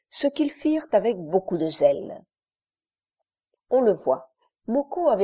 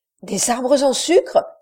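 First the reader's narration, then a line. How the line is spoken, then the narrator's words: Exclaiming. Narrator (French): s'écria Costard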